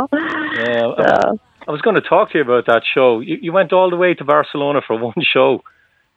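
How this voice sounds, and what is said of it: Irish accent. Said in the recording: “What kind of accent am I detecting here? ... Irish.”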